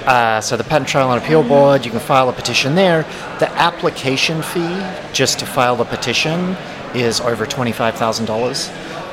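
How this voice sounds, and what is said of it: Mumbly Australian accent. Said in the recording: “That's my kind of mumbly Australian accent”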